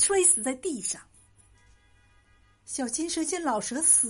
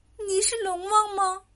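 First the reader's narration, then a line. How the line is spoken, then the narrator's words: Asking, done crying. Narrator (Chinese): 小金蛇不哭了，他问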